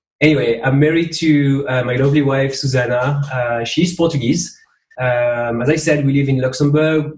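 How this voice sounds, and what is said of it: French accent in English. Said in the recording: “I'm not pretending to have this French accent ... I'm really French. I'm not pretending to have an accent.”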